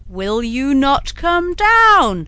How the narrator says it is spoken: roared Bluebeard

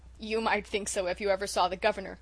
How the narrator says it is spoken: chuckled Dan

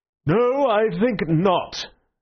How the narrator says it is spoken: said the president with a yawn like an unobtrusive earthquake

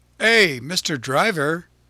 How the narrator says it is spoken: cried Pinocchio

